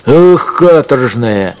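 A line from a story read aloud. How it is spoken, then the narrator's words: Shouting at dog. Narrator (Russian): крикнул он на овчарку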